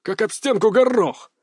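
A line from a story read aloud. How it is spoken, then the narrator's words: Barked. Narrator (Russian): рявкнул Дмитрий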